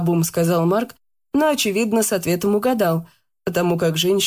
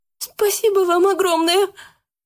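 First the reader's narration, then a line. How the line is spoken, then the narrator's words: Young woman's squeak. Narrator (Russian): пискнула девушка-администратор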